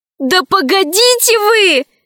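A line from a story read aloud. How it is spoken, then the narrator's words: Shouting. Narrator (Russian): закричала рабыня Заури Лара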